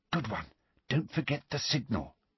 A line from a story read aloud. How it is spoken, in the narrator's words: Hermione whispered